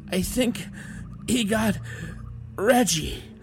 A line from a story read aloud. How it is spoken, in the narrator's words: one of them said, still gasping between words